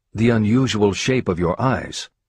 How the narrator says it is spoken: the student exclaimed

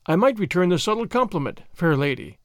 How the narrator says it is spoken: he said

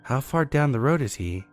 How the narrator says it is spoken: asked

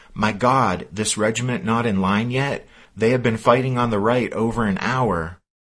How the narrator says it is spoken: The officer ... exclaimed

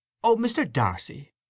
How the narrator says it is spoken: cried Mary Jane

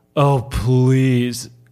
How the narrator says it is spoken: Cokie Mason sneered

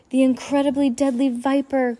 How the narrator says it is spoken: Klaus cried

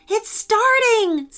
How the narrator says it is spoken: said Jane excitedly

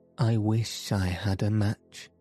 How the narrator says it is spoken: said

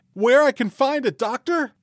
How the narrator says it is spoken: he cried

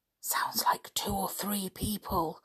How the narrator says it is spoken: whispered Dick

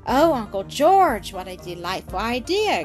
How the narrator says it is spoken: exclaimed Blanche

